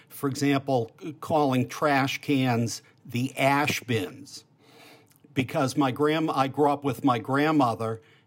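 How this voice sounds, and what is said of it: Classic Boston accent. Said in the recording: “I have a sort of classic Boston accent”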